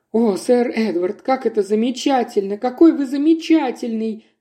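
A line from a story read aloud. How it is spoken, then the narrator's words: Exclamation. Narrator (Russian): воскликнула Магдален Воин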